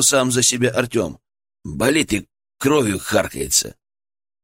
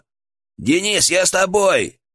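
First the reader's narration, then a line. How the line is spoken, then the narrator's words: Shout from darkness. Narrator (Russian): выкрикнул из темноты Федор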